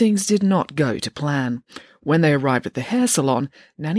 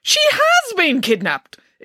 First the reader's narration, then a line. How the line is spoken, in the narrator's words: exclaimed Nanny Piggins